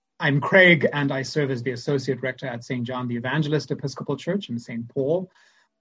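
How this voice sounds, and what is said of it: Zimbabwean accent. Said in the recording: “as you can probably tell from my accent, I'm from Zimbabwe”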